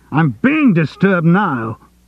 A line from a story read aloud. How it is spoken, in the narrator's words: he shouted